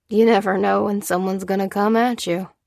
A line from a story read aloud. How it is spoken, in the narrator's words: he added with a chuckle